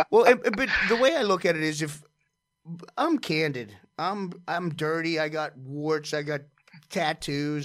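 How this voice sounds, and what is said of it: Pennsylvania accent. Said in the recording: “You got that Pennsylvania accent.”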